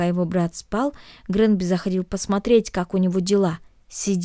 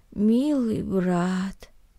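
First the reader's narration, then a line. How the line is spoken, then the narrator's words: Mumbling. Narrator (Russian): пробормотал Наэль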